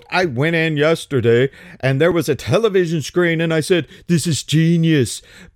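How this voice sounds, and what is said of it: Imitates another person's voice. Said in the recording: “I don't do a very good Trump impression,”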